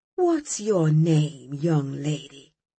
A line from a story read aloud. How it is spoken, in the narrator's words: he asked gently